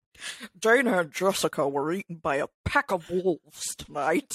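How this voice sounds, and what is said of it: Imitates another person's voice. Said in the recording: “A damn good impersonation.”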